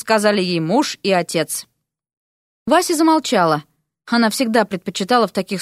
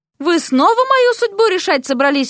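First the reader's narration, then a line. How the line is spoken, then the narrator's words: Exclaiming. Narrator (Russian): воскликнула Вася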